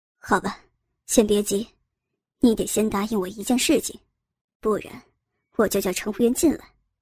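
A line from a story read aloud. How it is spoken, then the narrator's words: Calm, low voice. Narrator (Chinese): 郑有兵面上纹丝不动，沉声说道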